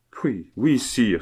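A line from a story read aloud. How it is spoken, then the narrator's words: Exclaiming. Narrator (French): s'écria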